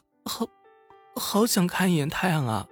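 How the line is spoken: Voice trembling with cold. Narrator (Chinese): 大笨被冻得声音颤抖着说

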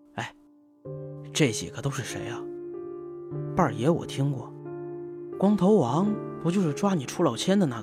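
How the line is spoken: Low questioning. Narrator (Chinese): 我低声问道

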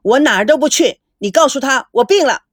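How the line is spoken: Angry roar. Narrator (Chinese): 孙振怒吼道

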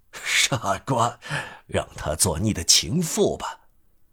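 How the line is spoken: Laughing, tender old man. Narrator (Chinese): 老人哈哈大笑，温柔不过的对他说

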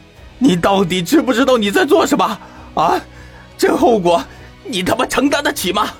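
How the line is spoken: Furious hoarse shout. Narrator (Chinese): 谢旭险些喷出一口老血，额上的青筋都条条绽出，粗声大喊道

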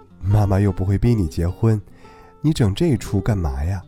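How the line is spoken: Laughing. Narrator (Chinese): 妈妈笑着说

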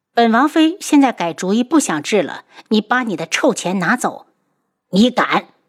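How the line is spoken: Furious. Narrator (Chinese): 坤一大怒

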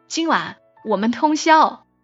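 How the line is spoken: Louder voice. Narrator (Chinese): 他声音变大，说了句

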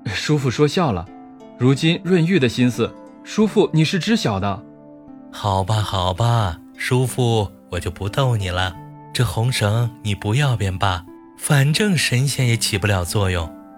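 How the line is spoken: Cheerful teasing. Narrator (Chinese): 丹珠笑呵呵的打趣

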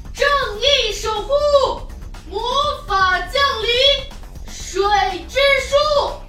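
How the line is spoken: Loud shout. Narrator (Chinese): 凯德大喊一声

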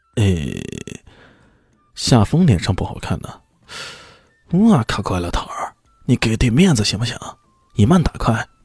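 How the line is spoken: Cold, exasperated. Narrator (Chinese): 郭青受不了这个纨绔子弟又在不懂装懂，冷冷的说道

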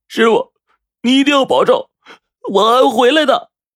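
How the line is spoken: Crying. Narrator (Chinese): 他哭着说

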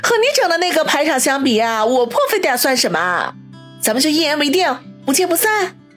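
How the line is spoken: Chuckling. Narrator (Chinese): 王小磊呵呵一笑，说道

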